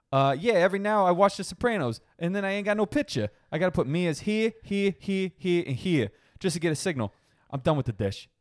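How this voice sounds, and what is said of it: Put-on Boston accent. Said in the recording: “the best one ever with the Boston accent”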